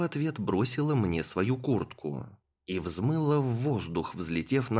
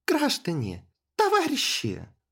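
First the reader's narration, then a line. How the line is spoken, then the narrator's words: Magically amplified exclamation. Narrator (Russian): воскликнула Криста, усилив свой голос магией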